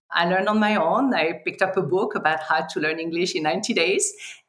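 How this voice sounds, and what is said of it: Strong foreign accent in English. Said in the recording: “why do I have such a strong accent?”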